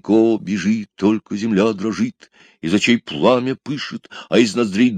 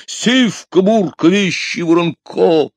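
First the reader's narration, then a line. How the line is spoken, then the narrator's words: Mighty heroic shout. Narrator (Russian): гайкнул богатырским голосом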